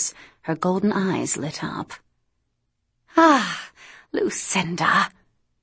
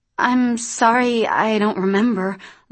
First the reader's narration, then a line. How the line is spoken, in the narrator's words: Luce stammered